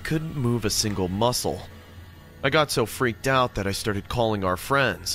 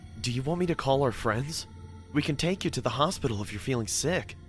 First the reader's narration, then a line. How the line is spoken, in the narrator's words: said in a worried voice